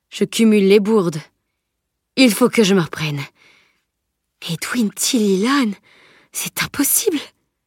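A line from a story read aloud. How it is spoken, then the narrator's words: Sighing. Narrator (French): soupira-t-il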